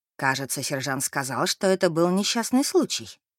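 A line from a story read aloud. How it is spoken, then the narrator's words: Plain. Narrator (Russian): ответила мадам Мэри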